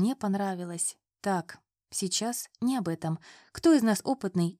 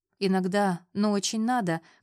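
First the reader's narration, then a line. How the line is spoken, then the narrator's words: Chuckling. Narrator (Russian): хохотнула Вера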